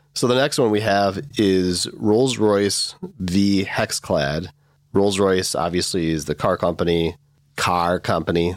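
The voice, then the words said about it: Midwestern American accent. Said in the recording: “There's that Midwest accent again.”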